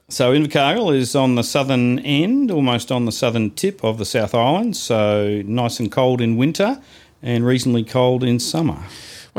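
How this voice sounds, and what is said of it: New Zealand accent. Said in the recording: “So you're a Kiwi? ... Not that we couldn't half tell by your accent”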